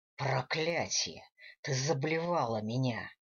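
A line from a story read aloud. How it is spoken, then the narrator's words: Angry growl. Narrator (Russian): рыкнул Гвидо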